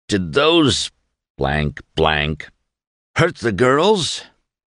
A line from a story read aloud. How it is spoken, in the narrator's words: Buck groaned